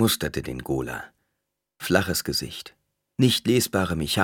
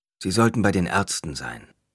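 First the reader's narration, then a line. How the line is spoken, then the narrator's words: Plain. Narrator (German): sagte Hyde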